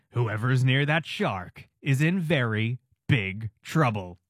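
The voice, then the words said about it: Dramatic movie trailer narrator voice. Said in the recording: “movie trailer voice.”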